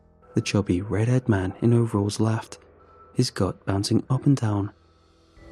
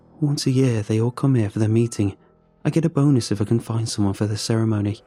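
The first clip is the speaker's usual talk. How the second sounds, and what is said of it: Thick accent. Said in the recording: “in his thick accent”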